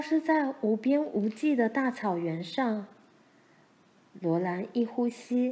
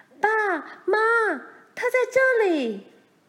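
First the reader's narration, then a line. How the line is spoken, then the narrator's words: Repeated calling. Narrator (Chinese): 他不断地叫着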